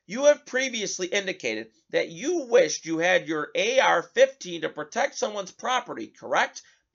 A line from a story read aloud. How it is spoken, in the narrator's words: Binger asked Rittenhouse